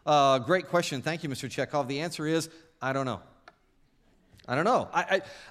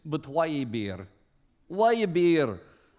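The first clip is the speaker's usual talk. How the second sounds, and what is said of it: Imitates Star Trek Chekhov's Russian accent. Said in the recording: “your Pavel Chekhov imitation”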